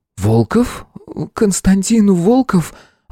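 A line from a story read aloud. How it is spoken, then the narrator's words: Hoarse with excitement. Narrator (Russian): Она даже осипла от волнения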